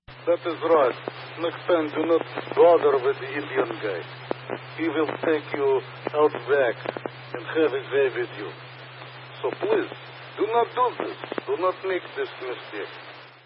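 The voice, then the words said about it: Put-on Russian accent. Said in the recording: “Fucking Russian, dude. It has nothing to do with India. ... several different languages for your accent.”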